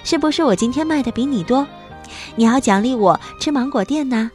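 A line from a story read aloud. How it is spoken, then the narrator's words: Crisp laughing girl. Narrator (Chinese): 身后就传来姑娘清脆的欢笑声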